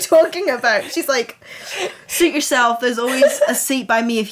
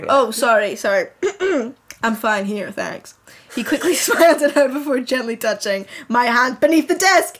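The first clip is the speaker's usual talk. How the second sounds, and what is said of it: Imitates another person's accent. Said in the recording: “Why aren't you doing a Harry accent? ... Do you not want the Harry accent? ... No, I want the Harry.”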